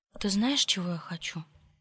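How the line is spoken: Whisper. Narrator (Russian): прошептала

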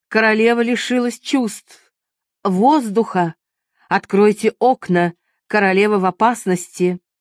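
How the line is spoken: Sharp commanding shout. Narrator (Russian): Вдруг своим резким повелительным голосом врач крикнул

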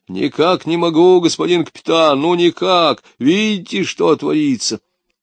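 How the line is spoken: Pleading deep bass. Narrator (Russian): Высокий майор умоляюще пробасил

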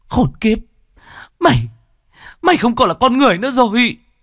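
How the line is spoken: Frantic trembling woman. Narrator (Vietnamese): Ả đàn bà run rẩy vì kích động, càng lúc càng trở nên điên dại

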